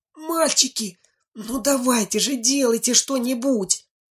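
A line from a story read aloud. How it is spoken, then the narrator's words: Terrified pleading loud whisper. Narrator (Russian): Синицына, которая ни жива, ни мертва от страха, взмолилась громким шепотом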